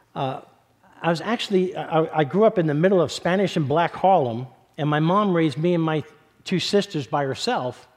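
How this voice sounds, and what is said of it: New York accent. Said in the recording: “I was born and raised in East Harlem in New York City. I'm not sure if you can tell by my accent.”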